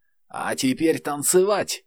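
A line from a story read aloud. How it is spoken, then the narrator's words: Hoarse shout. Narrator (Russian): хрипло выкрикнула леди Саммертайм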